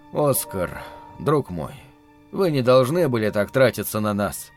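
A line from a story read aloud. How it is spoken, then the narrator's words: Quiet scolding. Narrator (Russian): тихо выговаривал мне Герман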